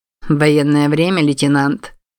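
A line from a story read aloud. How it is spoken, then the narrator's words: Mocking. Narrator (Russian): насмешливо ответил мужчина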